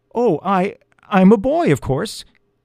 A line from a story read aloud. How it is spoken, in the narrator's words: stammered